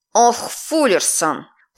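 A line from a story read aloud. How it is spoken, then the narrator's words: Strained hiss. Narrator (Russian): Прошипела, скривившись в неудобной позе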